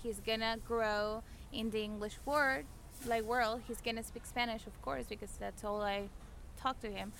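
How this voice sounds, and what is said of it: Spanish-accented English. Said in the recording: “With my accent ... cartoons, yeah, with accents ... how his mom speaks English”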